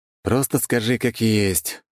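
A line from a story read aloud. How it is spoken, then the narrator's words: Sighing. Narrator (Russian): вздохнул я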